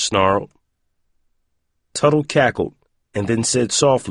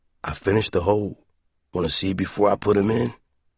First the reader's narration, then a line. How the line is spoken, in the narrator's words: Roiland groaned in horror